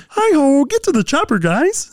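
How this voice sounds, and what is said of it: Kermit the Frog voice impression. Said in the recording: “Do your Kermit voice... My Kermit voice is really good... Yeah, it's good.”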